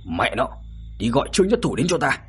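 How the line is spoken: Angry urgent shout. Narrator (Vietnamese): đột nhiên sắc mặt giận dữ, hình như nhớ ra điều gì đó, vội vàng hét lớn với đám đàn em bên cạnh

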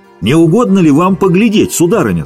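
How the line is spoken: Shouting. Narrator (Russian): закричал

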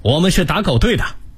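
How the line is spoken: Loud shouting. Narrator (Chinese): 他们高叫

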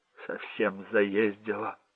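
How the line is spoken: Whimpering. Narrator (Russian): захныкал он

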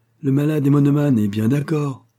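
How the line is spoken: Exclaiming. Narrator (French): s'écria-t-il

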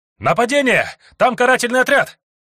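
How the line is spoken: Shouting, alarmed. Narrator (Russian): кричал один из вбежавших

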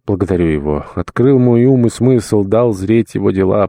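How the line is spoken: Old man speaking. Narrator (Russian): проговорил старик

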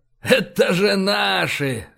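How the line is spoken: Loud laughter. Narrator (Russian): расхохотался Файн

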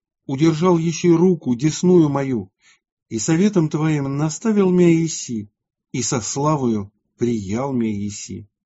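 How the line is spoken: Martyr's exclamation. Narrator (Russian): мученик мог воскликнуть при сем к владыке

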